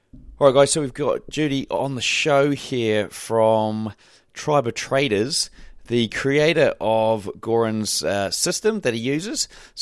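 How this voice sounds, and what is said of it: Hoarse, strained voice. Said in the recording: “I did have a really bad sore throat. I'd lost my voice, actually, a few days prior to this. So you're going to notice that my voice changes quite significantly at points during this interview”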